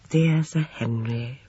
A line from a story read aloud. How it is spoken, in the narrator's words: murmured Miss Marple affectionately